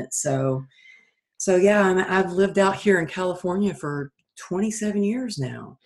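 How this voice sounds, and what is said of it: Texas accent. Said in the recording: “I don't sound like I'm from California. I'm originally from Texas... I used to try and lose my accent... the accent is perfect”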